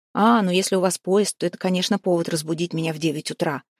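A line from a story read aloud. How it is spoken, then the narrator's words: Wry, sarcastic snort. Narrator (Russian): хмыкнул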